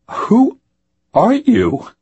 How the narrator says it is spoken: asked, his voice cracking

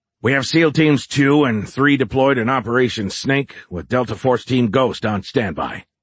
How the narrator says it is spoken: Barnes said in his gruff voice

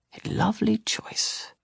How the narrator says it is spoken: Tomas whispered

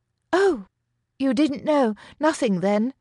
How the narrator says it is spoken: he'd exclaim, pretending to be distraught

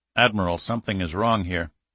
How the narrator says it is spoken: Toland said quietly

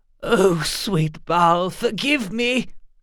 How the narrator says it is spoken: he gasped

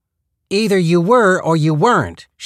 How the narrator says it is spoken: she said, raising her voice

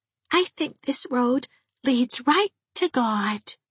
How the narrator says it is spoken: she said dreamily

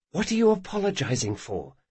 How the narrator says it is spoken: she whispered

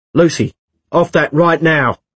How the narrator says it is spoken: he shouted before he could stop himself

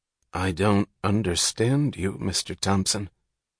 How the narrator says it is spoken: he made the effort to utter stiffly

